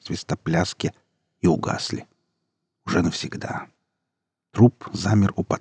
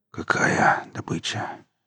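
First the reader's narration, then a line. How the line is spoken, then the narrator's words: Hoarse, confused. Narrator (Russian): прохрипел еще ничего не понимавший Дима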